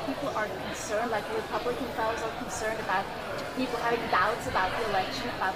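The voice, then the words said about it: Foreign accent, somewhat loud. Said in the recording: “she had kind of an accent there and it's a little loud”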